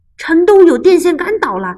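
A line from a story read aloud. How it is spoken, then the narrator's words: Workers shouting. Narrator (Chinese): 电话公司和电力公司的人喊道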